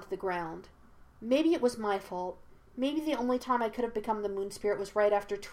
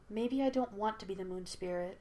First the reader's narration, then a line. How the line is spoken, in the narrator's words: she said in a quiet voice